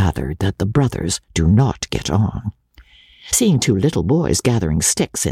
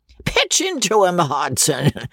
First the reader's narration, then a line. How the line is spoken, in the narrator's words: roared the baronet